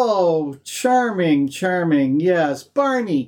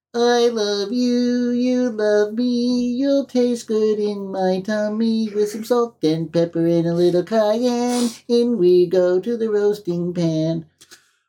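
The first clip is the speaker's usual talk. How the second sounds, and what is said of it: Cartoon dinosaur character voice. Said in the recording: “Here's my Barney. I'm going to do my Barney imitation.”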